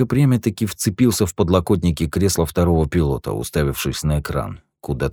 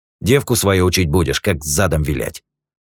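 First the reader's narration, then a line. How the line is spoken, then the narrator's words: Grumbling. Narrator (Russian): проворчал Юджин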